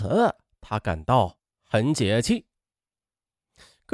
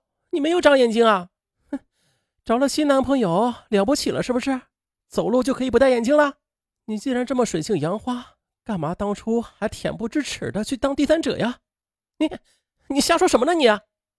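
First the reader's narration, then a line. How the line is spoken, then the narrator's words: Shrill. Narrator (Chinese): 马燕立刻尖声道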